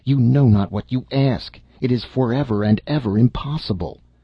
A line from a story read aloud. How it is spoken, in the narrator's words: in desperation, he cried